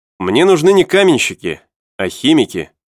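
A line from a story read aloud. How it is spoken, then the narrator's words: Plain. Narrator (Russian): ответил инженер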